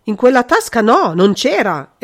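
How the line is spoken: Instinctive startled exclamation. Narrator (Italian): esclamò il conte con uno scatto istintivo

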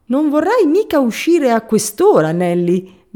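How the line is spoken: Shouting. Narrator (Italian): gridò Benford

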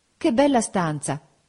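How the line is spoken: Exclaimed. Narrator (Italian): esclamai

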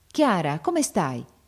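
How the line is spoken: Exclaiming. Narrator (Italian): esclamò il marchese

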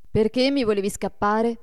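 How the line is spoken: Reproachful question. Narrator (Italian): gli domandò Adolfo in tono di rimprovero

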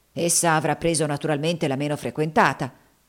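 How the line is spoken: Loud, talking to himself. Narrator (Italian): disse Haley, parlando a voce alta fra sé

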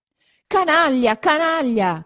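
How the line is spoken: Continued shouting. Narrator (Italian): continuava a gridare

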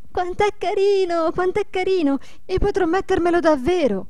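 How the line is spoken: Delighted repeated cries. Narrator (Italian): gridando ad ogni momento

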